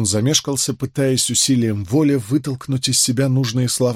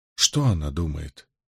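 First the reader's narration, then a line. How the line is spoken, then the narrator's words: Quiet question. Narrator (Russian): столь же тихо спросил Мэтью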